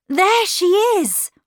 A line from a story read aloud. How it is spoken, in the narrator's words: we both cried out